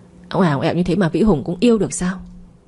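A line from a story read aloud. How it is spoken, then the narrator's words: Sulky resentful. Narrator (Vietnamese): Đào hậm hực khi thấy Vĩ Hùng dành hết tình cảm cho Tuyết Nhi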